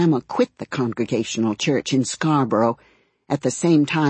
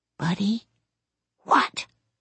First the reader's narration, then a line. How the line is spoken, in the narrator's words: An irritated hiss